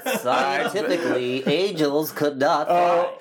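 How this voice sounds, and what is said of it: Nerdy newscaster character voice. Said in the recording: “nerd news voice ... That's his nerd news voice.”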